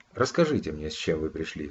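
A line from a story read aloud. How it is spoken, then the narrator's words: Calm. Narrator (Russian): сказал он спокойно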